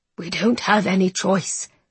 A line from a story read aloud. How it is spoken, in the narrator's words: the King muttered